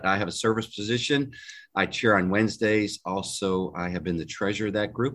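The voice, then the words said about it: Southern drawl. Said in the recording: “that southern drawl there”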